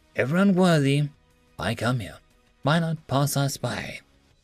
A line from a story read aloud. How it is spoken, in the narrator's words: Tech said quietly